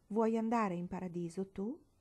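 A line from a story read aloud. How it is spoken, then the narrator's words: Plain. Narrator (Italian): le chiese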